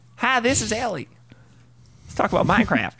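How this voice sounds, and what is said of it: Put-on southern accent. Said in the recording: “I don't know why she has a southern accent.”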